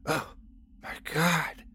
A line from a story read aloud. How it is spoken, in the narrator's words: I whispered